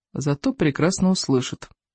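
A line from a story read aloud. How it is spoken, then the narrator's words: Gloomy inner thought. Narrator (Russian): уныло подумал Икинг, кровожадный карасик третий, надежда, опора и наследный принц племени лохматых хулиганов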